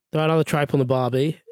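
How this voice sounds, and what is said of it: Put-on Australian accent. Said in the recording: “read them out in your best Aussie voice ... I think that's the accent.”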